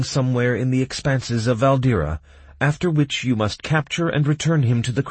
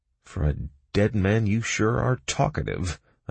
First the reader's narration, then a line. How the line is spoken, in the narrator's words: I muttered, barely able to restrain myself from kicking him